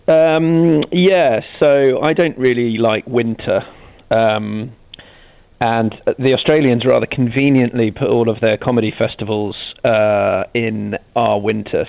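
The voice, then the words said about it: British accent. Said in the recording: “obviously a British accent there”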